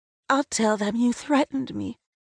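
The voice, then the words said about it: Small, timid voice. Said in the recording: “I say in a small voice.”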